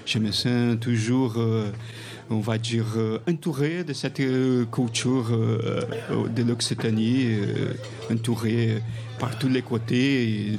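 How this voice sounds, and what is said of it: French spoken with a foreign accent. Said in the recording (French): “Si tu as un bel accent”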